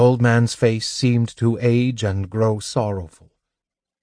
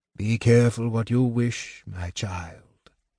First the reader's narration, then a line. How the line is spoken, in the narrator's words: he said softly